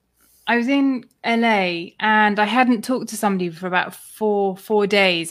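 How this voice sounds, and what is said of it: British accent. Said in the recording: “he heard my accent and he said, oh, where are you from? So I said the UK”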